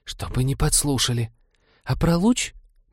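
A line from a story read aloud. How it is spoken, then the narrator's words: Hissing whisper turning rapid patter. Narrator (Russian): Механик все же сбилась заговорщицкого шипения на привычную скороговорку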